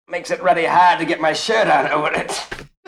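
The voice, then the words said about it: Unconvincing attempt at Australian accent. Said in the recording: “That's what an Australian sounds like. Definitely. I think that guy's Canadian, by the way.”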